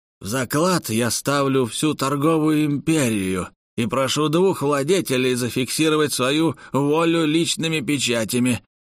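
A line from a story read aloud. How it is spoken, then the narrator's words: Loud declaration. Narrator (Russian): громко произнес Шурс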